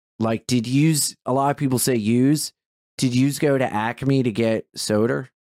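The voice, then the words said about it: Exaggerated Delaware accent. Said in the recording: “Delaware has like a fucking shitty accent”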